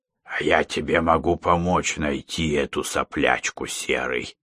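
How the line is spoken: Whisper. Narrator (Russian): снова зашептал Борис

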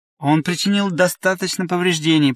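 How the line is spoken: Grumbled. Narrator (Russian): проворчал Дьювал

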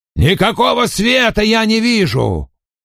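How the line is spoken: Roar. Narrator (Russian): проревел шкипер

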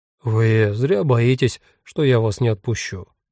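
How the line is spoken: Sigh. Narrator (Russian): вздохнул Иоганн Георг

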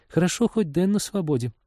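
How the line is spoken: Sighed. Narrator (Russian): вздохнула Полина

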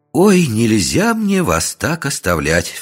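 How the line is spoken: Exclaiming. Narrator (Russian): воскликнула Вера Игнатьевна

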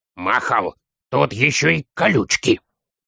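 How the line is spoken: Child's hiss. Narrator (Russian): Шипел малыш

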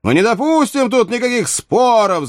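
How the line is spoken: Many voices shouting together. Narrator (Russian): закричали как один человек все стрелки

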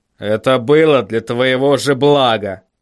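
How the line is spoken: Grumbling. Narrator (Russian): проворчал Ваймс

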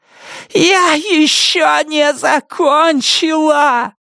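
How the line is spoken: Strained, anguished shouting. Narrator (Russian): надрывно кричала она

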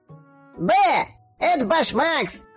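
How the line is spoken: Barked gruffly. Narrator (Russian): рявкнул следующий фигл

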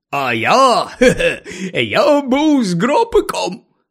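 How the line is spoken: Joyful announcement. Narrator (Ukrainian): радісно повідомив Гегріт

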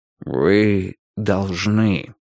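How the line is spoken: Gentle reminder. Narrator (Russian): мягко напомнил Вудвард

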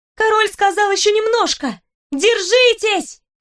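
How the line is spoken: Shout. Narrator (Russian): крикнула я

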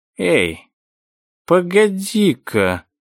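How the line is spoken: Slow speech. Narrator (Russian): медленно проговорил Джим

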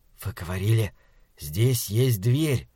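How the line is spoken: Whisper. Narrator (Russian): прошептал Малаки

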